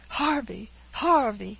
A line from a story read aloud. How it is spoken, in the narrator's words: cried Caesar, dancing from one leg to the other